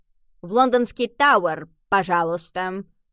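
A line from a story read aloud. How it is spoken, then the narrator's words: Disguised voice, strange accent. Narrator (Russian): произнес Генри не своим голосом, со странным акцентом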